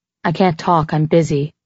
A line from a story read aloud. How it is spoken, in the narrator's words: I said flatly